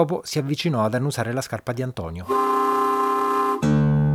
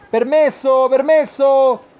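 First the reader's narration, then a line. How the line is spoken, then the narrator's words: Shouting to clear a way. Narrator (Italian): gridava per farsi largo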